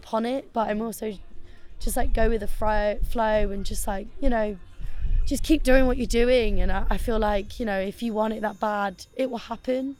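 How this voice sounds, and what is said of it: Croaky, strained voice. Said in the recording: “my voice is dying right now. I'm so yeah. croaky.”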